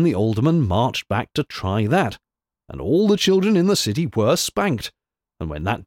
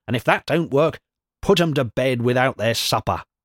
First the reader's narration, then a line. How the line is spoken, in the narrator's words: she snapped out